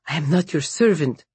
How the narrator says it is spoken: his voice shook

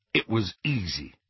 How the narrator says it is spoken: said Harry

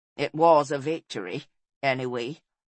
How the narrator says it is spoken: said Caswellan wearily

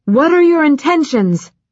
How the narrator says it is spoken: he shouted

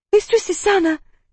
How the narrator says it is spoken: gasped a breathless Berita

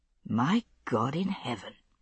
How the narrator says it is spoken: he said softly, aloud

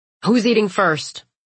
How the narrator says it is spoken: Nolan says to Andy gruffly

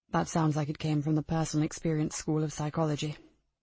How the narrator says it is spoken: Joseph said softly

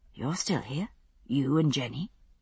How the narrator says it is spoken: said quietly

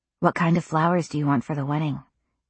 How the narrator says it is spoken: Jeremiah asked me in a low voice

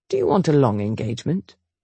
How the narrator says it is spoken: Chase mumbled the question around a mouthful of fried egg

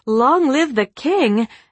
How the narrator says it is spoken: she might have exclaimed

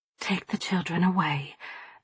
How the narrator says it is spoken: I told quietly, trying to keep my wits about me

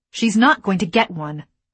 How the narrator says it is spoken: I snapped

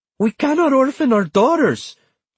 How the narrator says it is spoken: Antonia said wildly

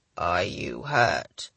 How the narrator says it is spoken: he asked, his voice weak

